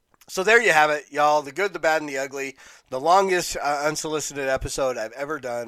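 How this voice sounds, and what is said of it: Hoarse, worn-out voice. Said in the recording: “My voice just is gone today.”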